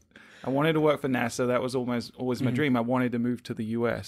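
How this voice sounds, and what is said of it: Slightly mixed British accent. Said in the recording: “my accent's a little wonky. I'm originally from the UK”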